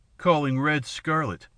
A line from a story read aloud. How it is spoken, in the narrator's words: Harelip sneered